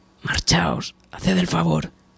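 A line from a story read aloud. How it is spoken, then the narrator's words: Said quietly. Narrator (Spanish): dijo en voz baja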